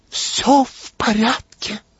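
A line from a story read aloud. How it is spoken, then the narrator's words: Whispered. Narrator (Russian): шепотом сообщила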